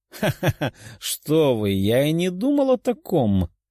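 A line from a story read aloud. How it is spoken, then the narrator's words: Laughing. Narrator (Russian): рассмеялся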